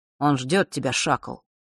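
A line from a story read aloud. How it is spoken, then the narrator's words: Quiet and dry. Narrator (Russian): негромко и сухо произнес Рок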